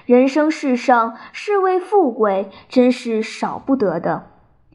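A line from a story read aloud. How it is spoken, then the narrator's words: Sighing. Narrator (Chinese): 他叹道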